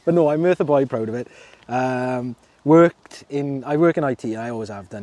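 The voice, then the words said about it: Welsh Merthyr accent. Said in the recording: “I'm Merthyr boy, born and bred. Um, the accent hopefully gives it away. Not uh, it does not sound Cardiff hopefully.”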